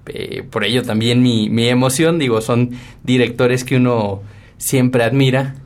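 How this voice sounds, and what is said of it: Mexican Spanish accent. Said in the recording (Spanish): “como quizá hayas detectado mi acento, yo soy de México”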